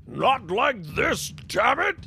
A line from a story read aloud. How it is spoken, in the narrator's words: roared